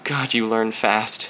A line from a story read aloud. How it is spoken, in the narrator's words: whispered finally